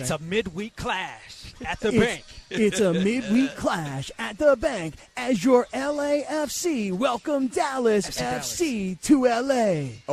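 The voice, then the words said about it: Impression of Mario, sportscaster style. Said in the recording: “your Mario impression”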